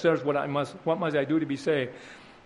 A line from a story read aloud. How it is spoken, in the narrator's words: the Roman jailer, he cries in his distress